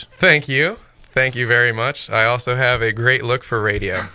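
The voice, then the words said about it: Rich radio-style voice. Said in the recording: “you do have a great radio voice.”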